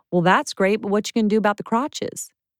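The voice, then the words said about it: Thick Southern accent impression. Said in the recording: “he was super Southern and had this super thick accent.”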